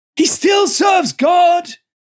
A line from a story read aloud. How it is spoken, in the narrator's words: Joseph shrieked